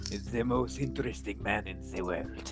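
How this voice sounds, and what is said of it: Weak put-on French accent. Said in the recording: “That was French. ... These both sound the same to me when you try to do it. ... I can't do accents.”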